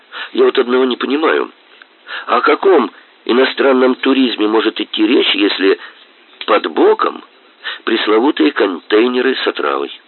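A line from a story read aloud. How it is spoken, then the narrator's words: Extremely simple-hearted tone. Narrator (Russian): Майор беспредельно простецким тоном произнес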